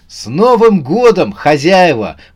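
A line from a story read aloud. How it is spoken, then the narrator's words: Exclaiming. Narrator (Russian): воскликнул он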